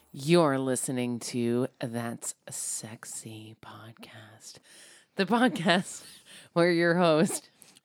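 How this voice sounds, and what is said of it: Sexy phone sex operator voice. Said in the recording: “what's up with that voice? ... It's my phone sex operator voice ... my sexy voice”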